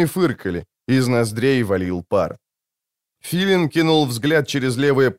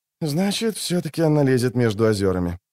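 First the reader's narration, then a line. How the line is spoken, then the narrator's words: Grumbled. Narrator (Russian): буркнул Скеллен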